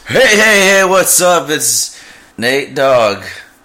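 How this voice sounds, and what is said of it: Excited radio announcer voice. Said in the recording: “That was weird. ... Your voice. ... It was just an excited voice. ... that's my radio voice. ... it's different than like my normal talking voice”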